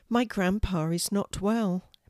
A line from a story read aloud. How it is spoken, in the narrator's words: Maddie told them sadly